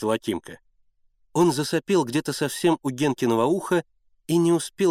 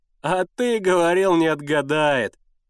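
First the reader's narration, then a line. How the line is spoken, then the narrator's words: Roaring with laughter. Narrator (Russian): покатывался с хохоту Сенька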